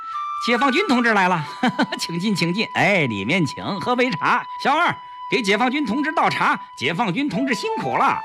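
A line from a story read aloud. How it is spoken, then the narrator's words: Smiling, welcoming shopkeeper. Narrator (Chinese): 杂货店掌柜一见有人进来，赶紧露出笑脸相迎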